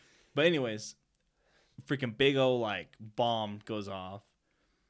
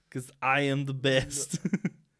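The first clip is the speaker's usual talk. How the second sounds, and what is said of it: Imitates another person's accent. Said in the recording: “doing the Schwarzenegger accent”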